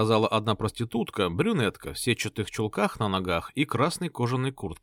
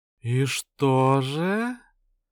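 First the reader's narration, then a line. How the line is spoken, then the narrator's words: Languid woman's voice. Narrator (Russian): томным голосом произнесла блондинка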